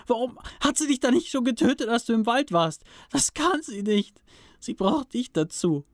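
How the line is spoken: Screaming. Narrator (German): schrie er förmlich

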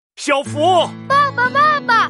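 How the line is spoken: Loud, breathless from running. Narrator (Chinese): 小福爸爸满头大汗的跑了过来，大声对小福说

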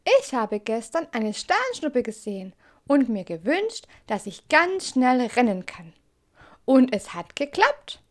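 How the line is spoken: Excited, breathless squirrel. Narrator (German): antwortet das Eichhörnchen aufgeregt, noch immer rasend schnell auf und ablaufend

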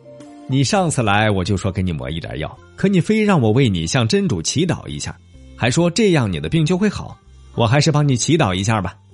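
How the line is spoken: Smiling. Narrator (Chinese): 阿凡提笑着说

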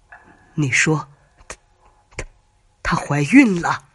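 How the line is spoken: Trembling, shaky voice. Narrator (Chinese): 马先生微微有些发抖，声音打着颤

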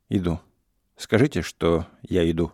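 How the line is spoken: Dry, firm, restrained. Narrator (Russian): Она сумела победить волнение, сухо, но твердо отвечала

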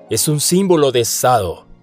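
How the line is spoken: Shouted after someone. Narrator (Spanish): gritó Halduron tras él

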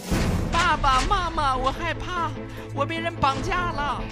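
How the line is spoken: Heartrending scream. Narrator (Chinese): 儿子那撕心裂肺的喊叫

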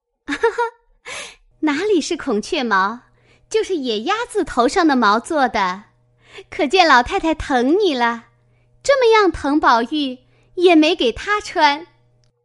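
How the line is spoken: Laughing. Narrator (Chinese): 湘云笑道

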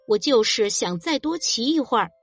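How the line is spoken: Cold. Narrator (Chinese): 比利冷冷地说

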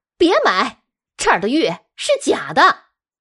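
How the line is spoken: Loud shout. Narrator (Chinese): 她往柜台前一站，大喊了一声

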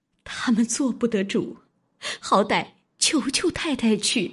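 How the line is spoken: Crying. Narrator (Chinese): 思琪哭道

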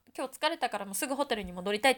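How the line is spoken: Plain. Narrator (Japanese): って言った

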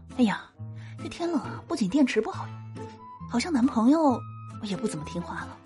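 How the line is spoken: Muttering. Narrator (Chinese): 闺蜜又嘀咕了一句

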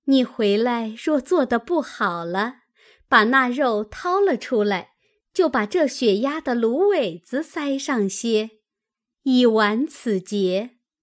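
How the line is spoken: Laughing. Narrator (Chinese): 宝钗笑道

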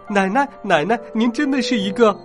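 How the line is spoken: Excited shouting. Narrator (Chinese): 我冲着他兴奋的嚷嚷

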